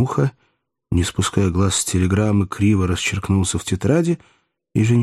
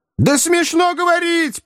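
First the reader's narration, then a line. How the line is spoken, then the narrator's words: Shrill shout. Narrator (Russian): пронзительно закричал Римский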